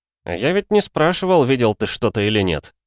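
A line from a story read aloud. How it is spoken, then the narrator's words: Snide smirking reply. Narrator (Russian): ехидно усмехнулся в ответ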